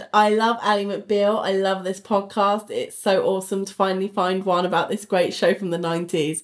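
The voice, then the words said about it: British accent. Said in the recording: “I can't say y'all with a British accent. It sounds... It sounds ridiculous.”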